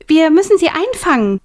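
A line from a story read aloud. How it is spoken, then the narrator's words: Calling out. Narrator (German): rief Millie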